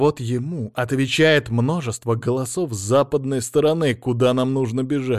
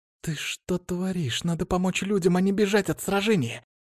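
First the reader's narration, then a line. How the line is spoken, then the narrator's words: Quiet hiss. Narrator (Russian): тихо прошипела девушка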